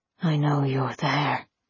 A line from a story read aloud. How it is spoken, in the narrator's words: he rasped